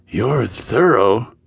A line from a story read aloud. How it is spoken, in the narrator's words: he commented as his voice grew husky